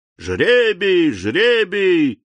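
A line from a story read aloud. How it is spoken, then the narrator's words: Shouting robbers. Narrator (Russian): закричали разбойники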